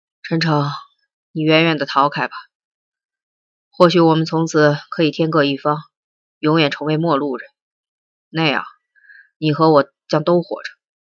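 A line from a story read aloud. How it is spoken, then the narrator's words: Sighing, unhurried. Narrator (Chinese): 袁一平叹了一口气，悠悠的说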